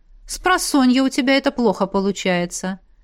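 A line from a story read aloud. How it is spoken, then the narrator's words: Sigh. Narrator (Russian): вздохнула наставница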